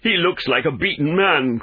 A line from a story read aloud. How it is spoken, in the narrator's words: cried Phelps